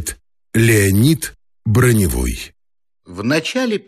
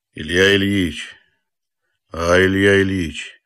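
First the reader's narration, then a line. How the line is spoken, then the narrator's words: Quiet. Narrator (Russian): начал он тихо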